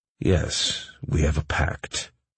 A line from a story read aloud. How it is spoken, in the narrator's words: I said solemnly